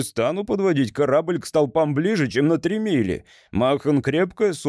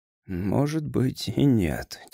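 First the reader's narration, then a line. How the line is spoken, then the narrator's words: Quiet. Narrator (Russian): тихо сказал Грейвс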